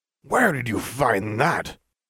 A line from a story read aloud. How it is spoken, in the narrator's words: Salazar hissed